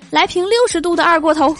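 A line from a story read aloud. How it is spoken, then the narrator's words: Shouting. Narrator (Chinese): 李逍遥又喊了一句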